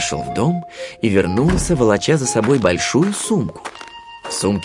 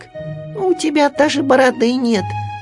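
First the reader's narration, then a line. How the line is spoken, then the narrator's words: Squeak. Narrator (Russian): пискнул Ру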